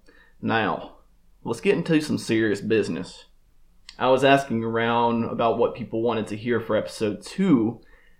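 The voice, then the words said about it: Slight Alabama Southern accent. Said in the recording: “my slight but noticeable Alabama accent ... my hillbilly roots”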